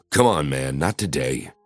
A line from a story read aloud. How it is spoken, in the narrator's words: I muttered